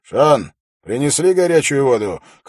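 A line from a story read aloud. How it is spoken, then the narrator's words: Shout through curtain. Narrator (Russian): крикнул Холт через занавеску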